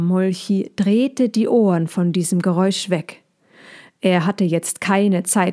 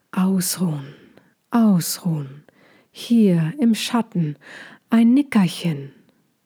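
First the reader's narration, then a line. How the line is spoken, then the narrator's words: Calling beech trees. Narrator (German): Die Buchen über ihnen wiegten sich sanft und riefen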